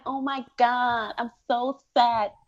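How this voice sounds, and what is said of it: Put-on affected 'phone voice'. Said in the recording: “why you gotta use that, that, voice ... you don't like my phone voice ... code switch”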